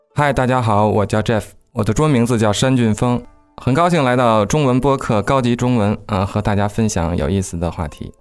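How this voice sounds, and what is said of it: Beijing Mandarin accent. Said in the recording (Chinese): “你来自北京，所以平时你的说话跟我的腔调啊、口音稍微有些不同 ... 皇城根下北京的口音”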